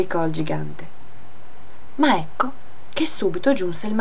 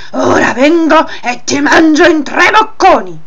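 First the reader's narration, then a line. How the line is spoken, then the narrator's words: Giant roaring. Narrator (Italian): ruggì il gigante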